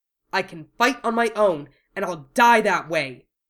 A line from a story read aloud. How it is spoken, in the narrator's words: Wu Fei shouted